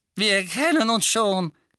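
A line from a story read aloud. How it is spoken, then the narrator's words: Lively squeak. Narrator (German): quiekte der quirlige Dickel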